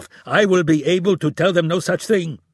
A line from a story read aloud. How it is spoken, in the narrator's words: he yelled